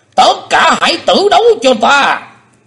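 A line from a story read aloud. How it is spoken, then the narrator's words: Loud roar. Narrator (Vietnamese): Âm ma giáo chủ sững đi một chập rồi gầm to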